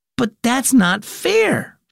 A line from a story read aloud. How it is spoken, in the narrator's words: Bax exclaimed